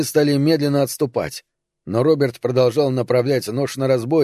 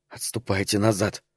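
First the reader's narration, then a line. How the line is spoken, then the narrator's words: Whispered in ear. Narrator (Russian): шепнул он слепому на ухо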